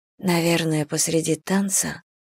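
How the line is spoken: Whispered. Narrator (Russian): прошептала она

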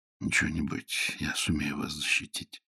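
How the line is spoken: Whisper. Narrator (Russian): шепнул Нестор Васильевич

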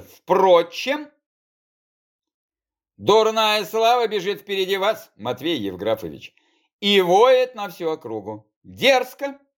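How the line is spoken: Calm, curt. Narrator (Russian): Спокойно бросил гвардеец

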